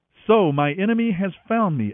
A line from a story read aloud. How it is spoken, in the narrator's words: Ahab exclaimed to Elijah